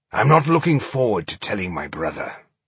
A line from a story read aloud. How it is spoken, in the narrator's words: Boindil said gloomily